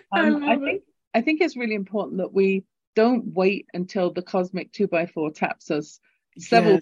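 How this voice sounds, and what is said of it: Lilting English accent. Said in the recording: “my lilting English accent”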